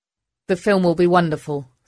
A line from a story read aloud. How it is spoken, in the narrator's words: said Rachel